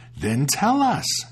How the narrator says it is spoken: they cried out

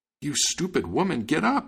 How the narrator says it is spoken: he cried

